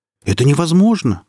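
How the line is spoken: Astonished exclamation. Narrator (Russian): воскликнули пораженные арахниды

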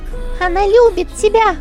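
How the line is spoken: Shouted. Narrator (Russian): крикнула Чон Юй

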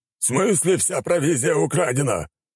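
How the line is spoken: Shouting commander. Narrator (Russian): прокричал командующий

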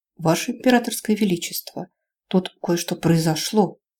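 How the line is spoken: Mournful whisper. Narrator (Russian): скорбным шепотом сообщил тот

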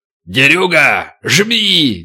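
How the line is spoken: Barked command. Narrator (Russian): гаркнул атаман

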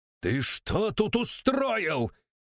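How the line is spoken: Yelling. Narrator (Russian): заорал

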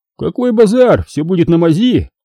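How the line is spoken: Exclaimed. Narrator (Russian): воскликнул Урал

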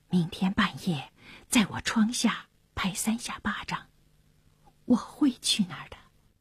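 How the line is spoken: Low voice. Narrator (Chinese): 当那沙尔走到埃尔纳尼身旁，低声地说

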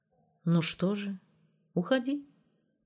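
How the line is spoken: Calm. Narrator (Russian): спокойно сказала Мариша

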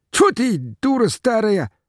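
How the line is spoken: Sharp cry. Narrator (Russian): вскрикнул Митрофан

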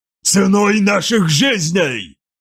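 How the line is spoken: Barked. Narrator (Russian): рявкнула сущность

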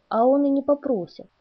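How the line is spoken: Amused snort. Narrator (Russian): хмыкнул

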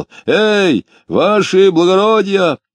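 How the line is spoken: Shouted. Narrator (Russian): закричал

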